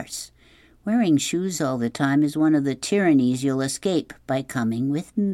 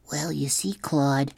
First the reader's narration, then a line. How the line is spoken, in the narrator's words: Jamie whispered